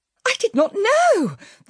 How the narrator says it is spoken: the Memsahib cried

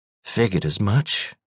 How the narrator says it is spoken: she said under her breath

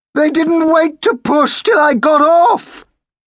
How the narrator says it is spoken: he shrieked

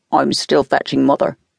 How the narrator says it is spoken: Donald said harshly

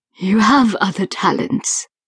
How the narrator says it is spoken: Aubergine said softly

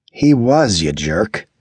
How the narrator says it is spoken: Andy said scornfully

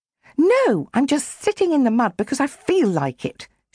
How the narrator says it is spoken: snapped

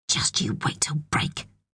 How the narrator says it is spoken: she hissed

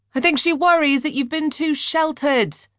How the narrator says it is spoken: Dimitri yelled over the sound of the 250-horsepower engine as it sprang to life

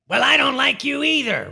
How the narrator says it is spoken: Warren shouted

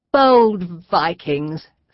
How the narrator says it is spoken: Sir Durward sneered

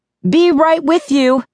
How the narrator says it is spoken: yelled

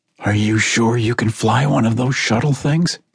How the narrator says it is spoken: Carmen asked in a husky voice

